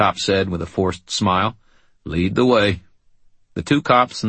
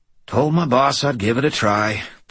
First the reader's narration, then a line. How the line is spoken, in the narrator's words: the chief sighed